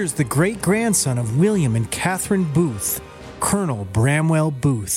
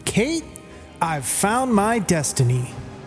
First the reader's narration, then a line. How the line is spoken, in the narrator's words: Booth shouted